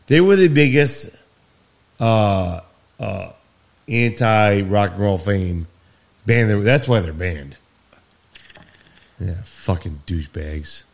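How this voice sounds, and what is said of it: Drunk, slightly slurred speech. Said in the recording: “I swear I can tell. ... I am wasted. ... You're slurring a little bit there.”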